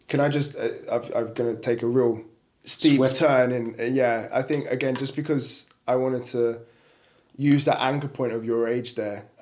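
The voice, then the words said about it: Thick English accent. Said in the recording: “You have a very thick English accent.”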